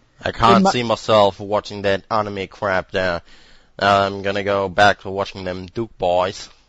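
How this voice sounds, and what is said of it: German speaker doing Southern American accent. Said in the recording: “Heavy German accent doing a Southern American accent... a random super southern accent”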